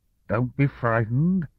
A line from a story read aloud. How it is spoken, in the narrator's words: the man said in a slurred voice